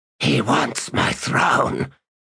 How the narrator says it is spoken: the captain whispered

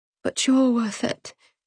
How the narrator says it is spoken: she cried, though the words came out so quietly she didn't think he heard them

